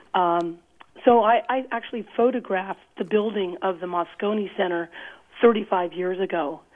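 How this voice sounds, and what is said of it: Husky, rough voice. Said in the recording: “excuse my voice. I'm channeling Tallulah Bankhead”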